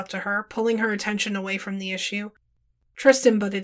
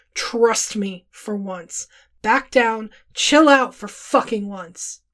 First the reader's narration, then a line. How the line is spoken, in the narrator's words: spoke through gritted teeth